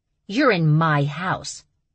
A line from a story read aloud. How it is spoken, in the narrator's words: Livy barked back